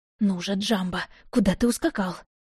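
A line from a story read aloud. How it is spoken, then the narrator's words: Grumbled under breath. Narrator (Russian): буркнула я себе под нос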